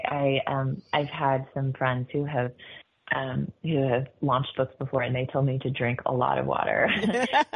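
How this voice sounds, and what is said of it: Slightly gravelly voice. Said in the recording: “my voice is a little gravelly because I've been doing a couple of events”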